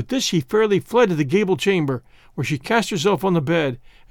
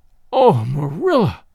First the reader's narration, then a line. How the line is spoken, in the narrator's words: cried Anne